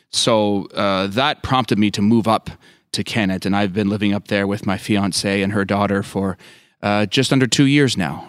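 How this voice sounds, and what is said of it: Slight Canadian accent. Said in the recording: “I hear a hint of an accent that doesn't sound like a Pennsylvania accent. ... Are you Canadian by birth? ... I am Canadian.”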